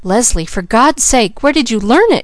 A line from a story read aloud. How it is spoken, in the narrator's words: cried Mrs